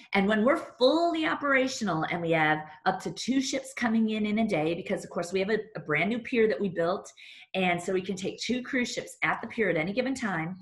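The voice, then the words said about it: Excited, enthusiastic voice. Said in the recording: “can you tell in my voice, I'm a little excited”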